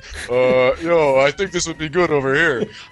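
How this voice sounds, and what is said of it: Imitates another person's voice. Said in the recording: “That wasn't your Schwarzenegger impression, was it? ... No, that was my Stallone. ... I thought that was your Betty Davis impression.”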